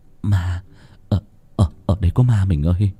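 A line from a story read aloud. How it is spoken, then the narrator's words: Stammering. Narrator (Vietnamese): anh lắp bắp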